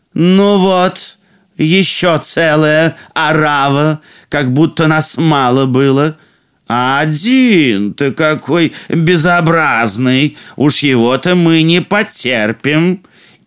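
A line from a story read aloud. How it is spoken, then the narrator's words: Loud haughty ducks. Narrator (Russian): другие утки высокомерно оглядели их и сказали громко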